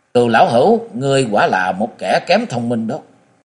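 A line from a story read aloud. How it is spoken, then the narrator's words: Laugh then harsh growl. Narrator (Vietnamese): Địch Tuân cười khải một tiếng, gằn giọng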